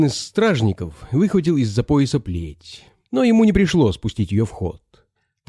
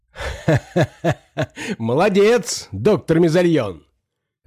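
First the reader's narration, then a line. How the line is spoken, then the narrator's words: Loud laughter. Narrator (Russian): расхохотался узурпатор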